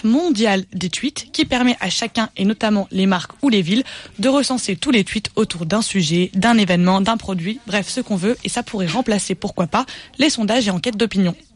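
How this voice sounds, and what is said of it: Lorraine regional French accent. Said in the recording (French): “Je viens de Lorraine, j'ai beaucoup de mal à dire tweet. ... C'est mon accent lorrain.”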